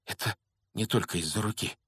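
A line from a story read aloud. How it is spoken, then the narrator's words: Whisper. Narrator (Russian): прошептал Рон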